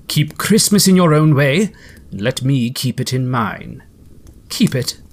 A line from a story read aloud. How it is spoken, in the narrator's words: returned sternly